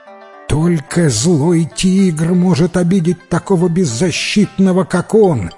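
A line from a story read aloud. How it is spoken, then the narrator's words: Exclaiming. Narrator (Russian): воскликнула другая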